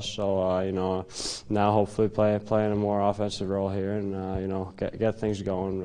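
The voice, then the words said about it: Finnish accent with North American traces. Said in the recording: “he's got a fascinating accent ... mostly Finnish, but you do hear some of the Canadian and North American in it as well”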